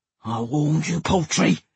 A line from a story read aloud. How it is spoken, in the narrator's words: he growled into my ear all sinister